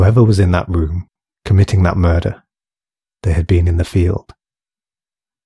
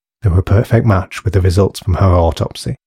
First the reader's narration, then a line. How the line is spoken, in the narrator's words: he sighed